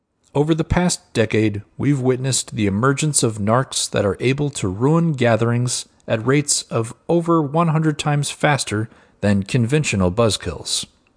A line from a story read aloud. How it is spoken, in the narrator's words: said Dr